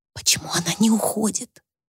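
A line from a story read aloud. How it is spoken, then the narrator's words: Whispered. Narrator (Russian): прошептала Люси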